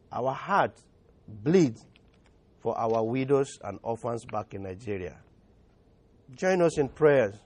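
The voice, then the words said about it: Nigerian-accented English. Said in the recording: “My English has an accent, it's not clear enough to probably share with you”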